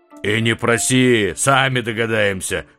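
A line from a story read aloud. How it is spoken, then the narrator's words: Giant's bark. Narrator (Russian): рявкнул исполин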